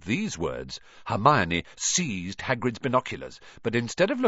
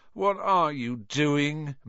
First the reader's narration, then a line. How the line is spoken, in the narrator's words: moaned Ron, grey-faced